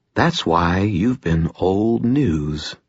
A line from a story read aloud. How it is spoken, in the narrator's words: I said quietly